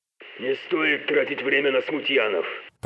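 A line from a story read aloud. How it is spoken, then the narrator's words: Growl in the ear. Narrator (Russian): прорычал в ухе Тейлока голос Барнарда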